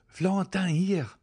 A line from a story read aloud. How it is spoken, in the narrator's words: cried he, starting up